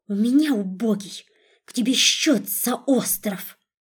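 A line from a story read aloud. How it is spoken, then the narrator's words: Furious hiss in face. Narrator (Russian): разъяренной змеей зашипела ему в лицо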